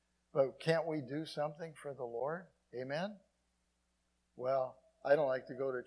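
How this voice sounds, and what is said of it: Usual voice. Nothing is said of it.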